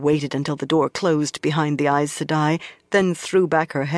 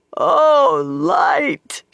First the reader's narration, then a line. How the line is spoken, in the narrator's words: she wailed, and the tears she had held back came in torrents